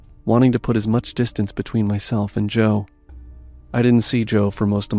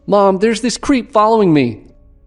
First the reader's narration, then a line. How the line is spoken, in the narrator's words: shouted out